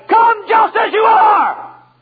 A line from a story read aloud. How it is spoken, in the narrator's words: the preacher shouted